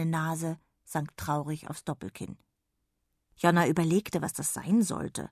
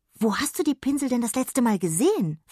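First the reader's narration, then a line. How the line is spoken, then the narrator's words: Excited question. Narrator (German): fragte sie aufgeregt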